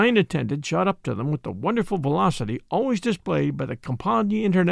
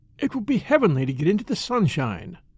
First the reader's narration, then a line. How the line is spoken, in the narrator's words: sighed Ruth